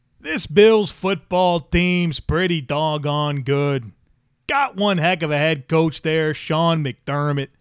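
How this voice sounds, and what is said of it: Imitates another person's voice. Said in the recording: “my John Gruden impersonation. I don't think it's an elite John Gruden impersonation. I've heard better.”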